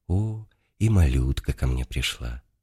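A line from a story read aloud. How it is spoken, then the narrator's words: Gentle old man. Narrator (Russian): Старец ласково обратился ко мне … и сказал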